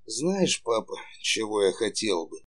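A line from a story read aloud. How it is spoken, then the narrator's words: Quiet question. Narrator (Russian): тихо спросил Саша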